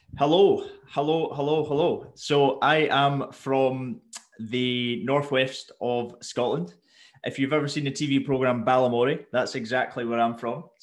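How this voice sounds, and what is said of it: Scottish accent. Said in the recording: “We've got an actual North, like a real life Northerner... There's a Scottish accent for everyone.”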